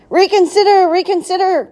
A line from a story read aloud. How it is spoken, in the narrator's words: cried the goose